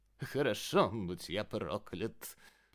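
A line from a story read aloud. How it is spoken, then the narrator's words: Muttering with a giggle. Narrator (Russian): пробормотал он, хихикнув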